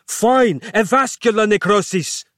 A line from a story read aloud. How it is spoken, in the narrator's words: snapped